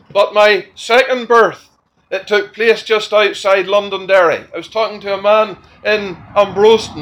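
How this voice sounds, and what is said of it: Northern Irish accent. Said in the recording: “My original birthplace was in Belfast, in Northern Ireland. You would know that by my accent.”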